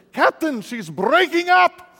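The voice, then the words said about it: Bad Scottish accent impression. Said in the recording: “It's the best Scottish accent I've ... That's terrible.”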